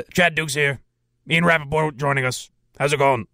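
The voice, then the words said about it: Imitates another person's put-on voice. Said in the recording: “is he putting on a little bit of a fake voice there? ... I could talk like that too, I guess. It would sound better, maybe?”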